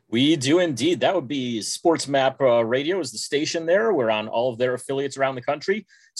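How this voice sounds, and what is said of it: Polished radio announcer voice. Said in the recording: “He's got the best radio voice in the world ... He's just got the best voice ... has a radio voice”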